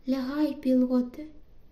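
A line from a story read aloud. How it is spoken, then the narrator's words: Quiet. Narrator (Ukrainian): тихо сказала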